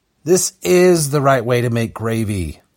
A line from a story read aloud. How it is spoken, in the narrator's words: Chris growled